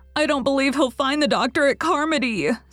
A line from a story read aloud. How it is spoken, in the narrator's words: sobbed Diana